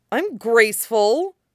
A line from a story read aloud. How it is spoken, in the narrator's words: Luke protested, his voice rising to a pitch it hadn't hit much since he'd left Tatooine